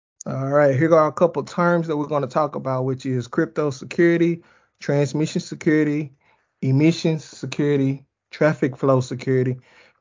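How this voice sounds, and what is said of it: Speaks with an accent. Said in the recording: “I got a an accent,”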